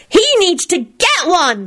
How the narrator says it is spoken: shrieked Teddy

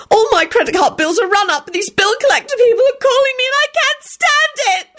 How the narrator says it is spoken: she screeched dramatically

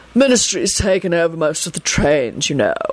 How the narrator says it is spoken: he replied lazily

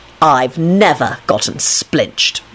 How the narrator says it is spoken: Lupin replied haughtily

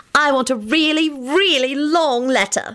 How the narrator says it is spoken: she squealed merrily

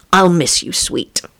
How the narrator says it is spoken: he murmured to Annie

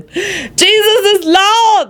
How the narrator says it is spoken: Lucretia shrieked

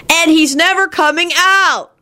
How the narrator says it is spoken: Teddy let out a shriek and began bawling louder than ever

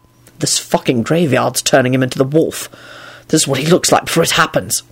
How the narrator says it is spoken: Quentin hissed back

